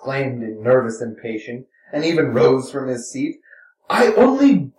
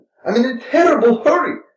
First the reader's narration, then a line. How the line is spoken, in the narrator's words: Mitya shouted hysterically, feeling that she was about to start talking again, and hoping to outshout her